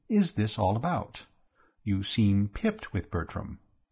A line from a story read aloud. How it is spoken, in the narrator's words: I said gently